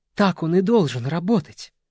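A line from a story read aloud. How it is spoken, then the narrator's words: Exclaiming. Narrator (Russian): воскликнул Бенсон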